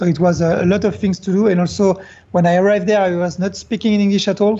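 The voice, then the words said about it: French accent. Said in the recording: “I know I have the French accent”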